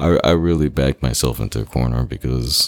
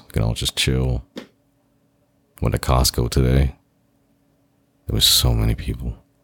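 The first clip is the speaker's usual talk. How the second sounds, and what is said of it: Calm public-radio announcer voice. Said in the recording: “You can listen to my NPR voice.”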